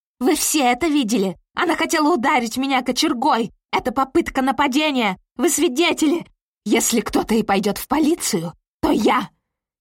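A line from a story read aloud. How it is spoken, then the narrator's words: Shouting. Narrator (Russian): кричала Кэролайн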